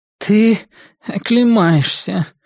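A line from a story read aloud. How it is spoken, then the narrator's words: Hoarse nasal voice. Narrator (Russian): раздался хриплый гнусавый голос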